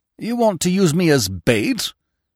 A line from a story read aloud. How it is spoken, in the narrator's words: he asked sharply